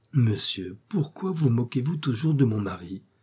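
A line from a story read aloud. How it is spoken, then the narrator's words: Gentle. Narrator (French): dit doucement Blanche de Dreux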